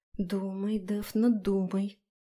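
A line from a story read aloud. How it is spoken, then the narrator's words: Muttering. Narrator (Russian): бормотала я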